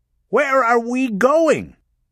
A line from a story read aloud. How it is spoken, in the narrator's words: Rachel Walling yelled over the sound of the siren